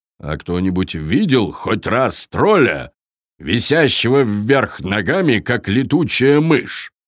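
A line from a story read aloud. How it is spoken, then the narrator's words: Menacing question. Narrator (Russian): грозно спросил Таппи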